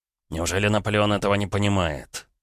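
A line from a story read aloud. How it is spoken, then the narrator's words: Thoughtful. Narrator (Russian): задумчиво проговорил Крюков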